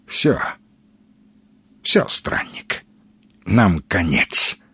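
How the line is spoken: Hoarse, cracking croak. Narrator (Russian): Предательски осипшим голосом прохрипел Маломальский

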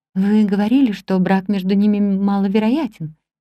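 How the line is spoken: Plain. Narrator (Russian): сказала я

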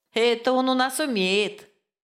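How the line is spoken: Laughing hostess. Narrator (Russian): засмеялась хозяйка

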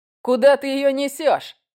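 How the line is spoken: Laughing shout. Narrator (Russian): смеясь, выкрикнул

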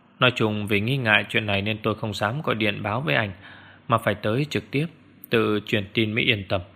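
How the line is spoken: Lowered voice. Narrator (Vietnamese): hạ giọng

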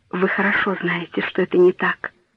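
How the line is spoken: Young woman whispering. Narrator (Russian): прошептала молодая девушка

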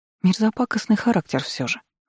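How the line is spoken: Sighing. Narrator (Russian): вздохнула Томила

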